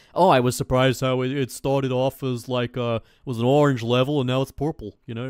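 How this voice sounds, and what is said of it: Imitates another person's voice. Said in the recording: “a good impression... You don't have to say it was a good impression. It wasn't.”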